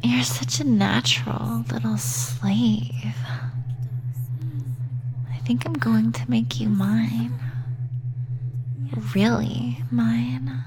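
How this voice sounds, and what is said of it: Sultry, seductive voice. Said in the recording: “my sexy voice”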